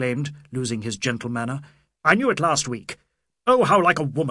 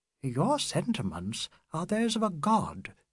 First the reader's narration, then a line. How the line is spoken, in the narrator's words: she said quietly